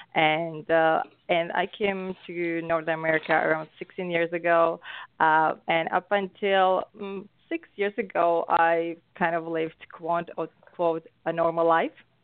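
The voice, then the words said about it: Slovak accent. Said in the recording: “I'm from Europe ... Slovakia, so Central Europe. So that explains my accent.”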